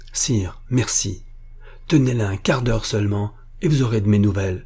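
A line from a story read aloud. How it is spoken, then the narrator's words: Exclamation. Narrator (French): s'écria monsieur de la Guerche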